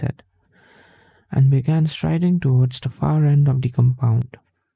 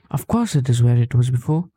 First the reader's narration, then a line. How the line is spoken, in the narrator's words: said